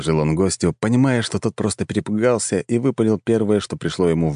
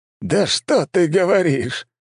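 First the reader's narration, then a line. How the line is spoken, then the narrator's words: Bursting into laughter. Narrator (Russian): расхохотался Валомарт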